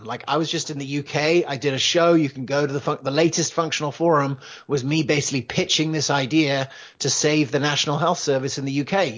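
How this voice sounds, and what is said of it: English accent. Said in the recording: “You could probably tell from my accent. I grew up in England. My mum's English.”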